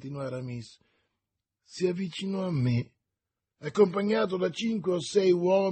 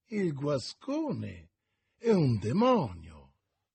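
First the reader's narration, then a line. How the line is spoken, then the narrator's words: Exclamation. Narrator (Italian): esclamò Athos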